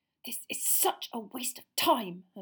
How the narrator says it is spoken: Hermione hissed

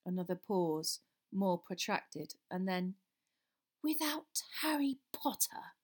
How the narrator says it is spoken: breathed the second voice softly

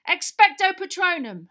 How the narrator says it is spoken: Harry yelled

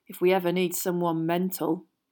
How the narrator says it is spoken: muttered Ron

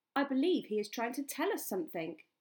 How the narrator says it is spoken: said Balin

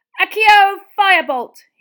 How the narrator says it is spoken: shouted

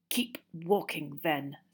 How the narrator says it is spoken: Snape snarled

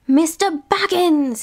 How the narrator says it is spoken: he cried

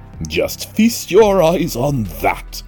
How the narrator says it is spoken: cried Mr

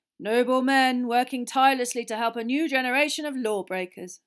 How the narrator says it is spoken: said Frod solemnly

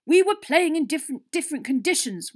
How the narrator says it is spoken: Wood shouted

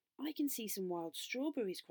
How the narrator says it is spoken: cried Beth

